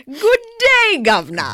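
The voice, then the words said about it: Bad fake English accent. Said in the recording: “that horrible, horrible accent ... Just like the English”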